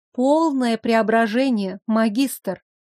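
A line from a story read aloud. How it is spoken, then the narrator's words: Languid voice. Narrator (Russian): сказала томным голосом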